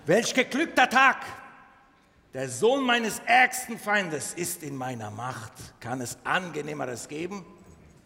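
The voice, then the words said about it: Put-on Turkish accent. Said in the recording (German): “türkischen Akzent zu verwenden”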